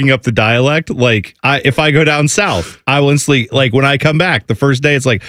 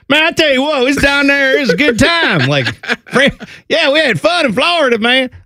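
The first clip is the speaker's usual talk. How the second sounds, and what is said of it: Put-on hillbilly Southern accent. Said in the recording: “Why was your Florida accent John Gruden?... It was like more hillbilly John Gruden... I don't think sounds Southern”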